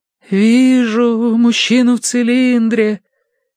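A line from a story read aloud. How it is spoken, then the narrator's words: Mournful drawl. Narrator (Russian): заунывно протянула она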